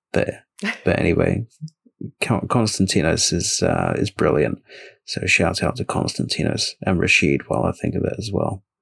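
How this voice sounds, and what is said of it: Hoarse, nearly lost voice. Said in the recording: “I'm about to lose my voice completely”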